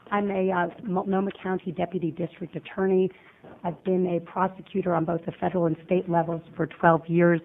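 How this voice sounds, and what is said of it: Hoarse, strained laryngitis voice. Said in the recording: “I have terrible laryngitis today.”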